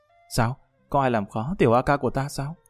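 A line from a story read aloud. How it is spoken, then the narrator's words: Warm, playful. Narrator (Vietnamese): An Bích Như ấm áp trong lòng, nháy mắt nói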